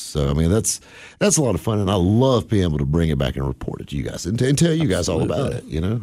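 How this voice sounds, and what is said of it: Cowboy drawl like the Marlboro Man. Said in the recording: “When you talk like this ... not a lot of people talk like the Marlboro Man”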